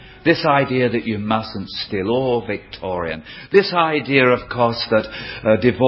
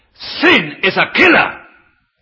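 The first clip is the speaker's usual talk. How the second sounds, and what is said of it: Raised, shouting voice. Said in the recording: “would you mind if I raise my voice?”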